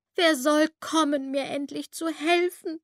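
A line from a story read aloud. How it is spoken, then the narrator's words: Sobbing voice. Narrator (German): schluchzte es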